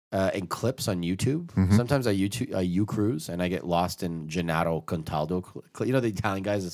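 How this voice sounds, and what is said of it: Usual voice. Nothing is said of it.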